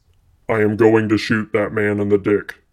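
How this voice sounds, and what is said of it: Imitates a movie robot character's voice. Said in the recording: “I'm starting to feel like RoboCop. Let's see if I can do the voice.”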